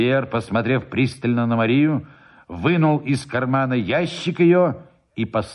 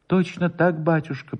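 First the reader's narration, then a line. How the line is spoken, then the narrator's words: Trembling voice. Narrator (Russian): повторил Воробьев дрожащим голосом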